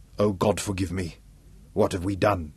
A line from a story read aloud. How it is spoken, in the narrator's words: choked